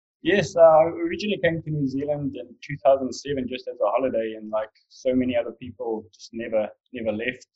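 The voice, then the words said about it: South African accent. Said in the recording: “Originally from South Africa ... I haven't lost the accent yet”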